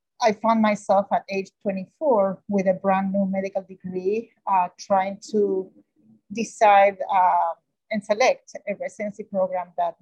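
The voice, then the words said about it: Thick Argentine Spanish accent. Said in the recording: “from Argentina ... a very thick accent, uh, as a non English speaker”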